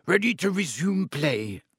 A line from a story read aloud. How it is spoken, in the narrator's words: she asked Wood